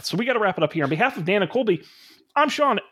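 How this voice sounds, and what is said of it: Out of breath. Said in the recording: “I'm out of breath.”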